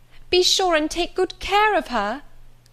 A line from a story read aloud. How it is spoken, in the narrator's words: cried she to the guard